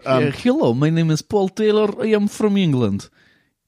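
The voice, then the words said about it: Put-on Russian accent. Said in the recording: “Didn't I get in trouble for doing a Russian accent one time on your podcast?... people were quite happy to hear you doing a Russian accent... That's like the worst Russian spy ever.”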